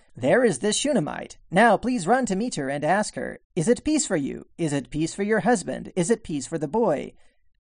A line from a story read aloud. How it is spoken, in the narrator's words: She said